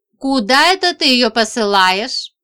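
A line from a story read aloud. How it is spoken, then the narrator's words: Menacing question. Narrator (Russian): спросил он грозно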